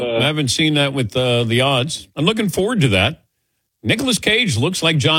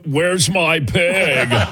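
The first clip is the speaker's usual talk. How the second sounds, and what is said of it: Imitates another person's voice. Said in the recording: “do your impersonation with that pig movie... It's very good... That's my Nicolas Cage impersonation”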